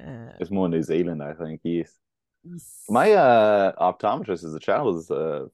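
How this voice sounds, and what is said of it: Usual voice. Nothing is said of it.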